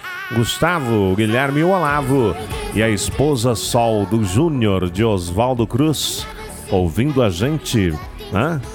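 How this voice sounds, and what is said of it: Radio announcer voice. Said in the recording (Portuguese): “Estou falando com voz de locutor da Rádio Terra FM”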